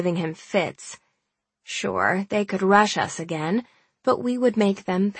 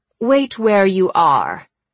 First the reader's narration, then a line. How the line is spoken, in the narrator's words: His voice radiated complete authority